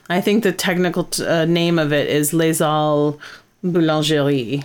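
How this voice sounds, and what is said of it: Put-on French accent. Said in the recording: “that is my professional French accent.”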